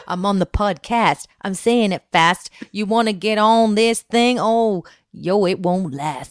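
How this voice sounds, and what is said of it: Rapping in an unusual put-on voice. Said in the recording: “that voice, what is that voice? Can't even talk in my normal voice when I rap.”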